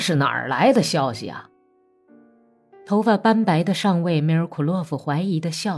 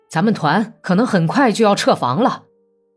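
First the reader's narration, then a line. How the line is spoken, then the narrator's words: Shouting from doorway. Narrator (Chinese): 卡尔梅科夫还在门口就喊叫道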